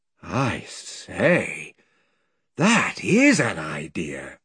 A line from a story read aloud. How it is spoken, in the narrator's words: said Edmund in an awed voice